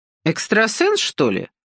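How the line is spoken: Mocking question. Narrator (Russian): снова насмешливо уточнила Ася

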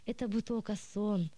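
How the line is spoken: Sigh. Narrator (Russian): вздохнул он

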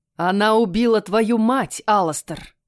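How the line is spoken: King roaring. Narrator (Russian): взревел король

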